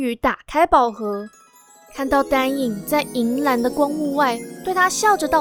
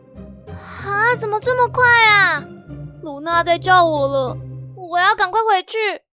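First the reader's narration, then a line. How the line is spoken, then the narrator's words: Loud shout. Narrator (Chinese): 元宇大叫一声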